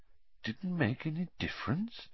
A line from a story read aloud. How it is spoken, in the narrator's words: said Dumbledore quietly